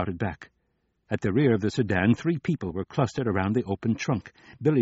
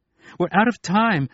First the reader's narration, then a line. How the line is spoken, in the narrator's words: she yelled